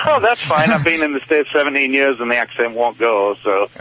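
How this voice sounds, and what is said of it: Slight English accent. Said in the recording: “you have a little bit more accent than the Michigan accent. You have kind of European accent. ... Yours is just very slight.”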